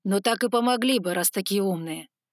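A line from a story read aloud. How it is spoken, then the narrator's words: Growled. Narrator (Russian): прорычал Алан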